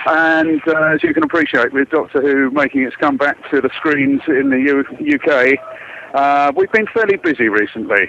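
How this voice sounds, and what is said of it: English accent. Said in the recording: “the listener can probably tell by your accent you're not from the U.S. ... Born and bred in England”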